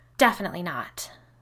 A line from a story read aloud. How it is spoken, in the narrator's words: Carly spat